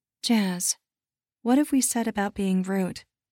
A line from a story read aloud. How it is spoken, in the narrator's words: I asked her calmly